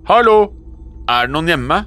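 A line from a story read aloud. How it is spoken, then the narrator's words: Calling through door gap. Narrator (Norwegian): ropte jeg inn i dørsprekken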